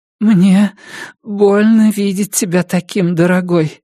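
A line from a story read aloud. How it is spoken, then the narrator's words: Trembling voice. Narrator (Russian): дрожащим голосом произнесла Карлотта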